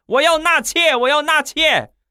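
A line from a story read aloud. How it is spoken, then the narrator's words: Hysterical shouting. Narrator (Chinese): 你刚才歇斯底里的在那儿喊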